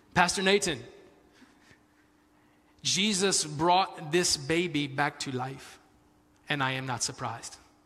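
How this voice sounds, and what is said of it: Weak put-on Spanish accent. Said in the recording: “sounded like a Jamaican accent more than, I'm sorry, man, that's really trying. But that's a Spanish accent. ... That's the best I can do.”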